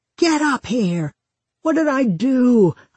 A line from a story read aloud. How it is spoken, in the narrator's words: he used to shout from the top of the stairs